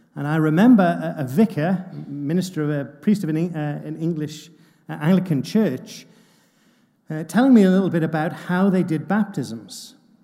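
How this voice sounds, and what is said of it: English accent. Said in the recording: “You'll have gathered from my accent that I'm from England.”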